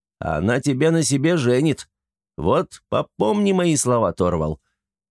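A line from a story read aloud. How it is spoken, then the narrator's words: Cheerful call after someone. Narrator (Russian): Антон, развеселясь, крикнул вслед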